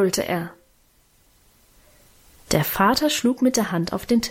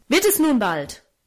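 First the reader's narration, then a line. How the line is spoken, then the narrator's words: Angry shout. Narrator (German): rief er zornig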